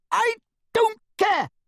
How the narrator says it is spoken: she screamed

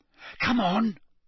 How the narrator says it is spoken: Parvati hissed

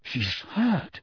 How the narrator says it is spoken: Harry whispered

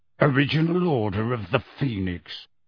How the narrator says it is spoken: growled Moody

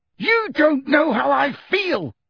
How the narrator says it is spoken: Harry roared

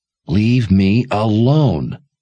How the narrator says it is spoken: she growled

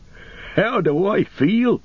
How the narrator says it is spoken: He cried

